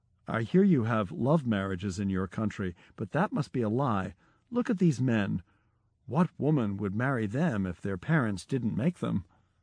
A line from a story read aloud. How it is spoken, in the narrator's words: India's leading professor of forensic medicine leaned over to me and whispered